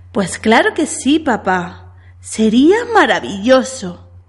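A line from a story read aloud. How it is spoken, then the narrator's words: Excited girl exclaiming. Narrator (Spanish): exclamó entusiasmada la niña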